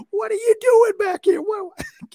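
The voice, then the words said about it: Imitation in a very high-pitched voice. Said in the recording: “his tone of voice just gets real high”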